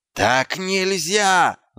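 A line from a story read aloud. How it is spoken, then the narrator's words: Yell. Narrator (Russian): заорал гном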